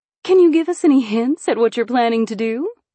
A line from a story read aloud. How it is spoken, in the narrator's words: She asked eagerly